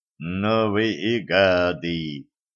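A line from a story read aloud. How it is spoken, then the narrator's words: Gloomy. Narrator (Russian): мрачно сказал проводник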